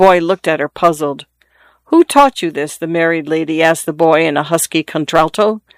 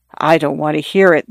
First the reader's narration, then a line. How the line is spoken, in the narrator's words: the young lady said in a low voice